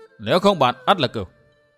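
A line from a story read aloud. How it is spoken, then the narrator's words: Irritable, snapping tone. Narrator (Vietnamese): Người lạ nói lên như gắt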